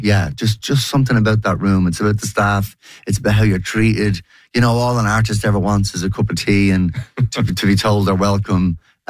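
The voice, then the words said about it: Worn, strained hoarse voice. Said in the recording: “my voice is a bit shot.”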